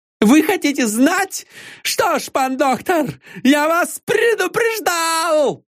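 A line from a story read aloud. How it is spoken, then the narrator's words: Sudden furious shout. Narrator (Russian): закричал, побагровев и выпучив глаза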